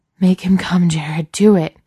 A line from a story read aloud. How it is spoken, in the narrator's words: Daniil pants